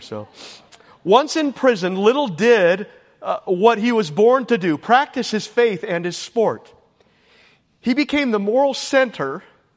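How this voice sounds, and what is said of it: Emotional, choked-up voice. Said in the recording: “I got a little emotional ... I don't know why I'm emotional every time I preach anymore.”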